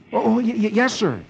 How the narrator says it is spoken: Dick, who still remembers his history learned in the year 1950, and who never expects himself to be meeting such a famous man, gasps

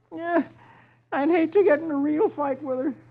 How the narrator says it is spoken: Dagwood groans

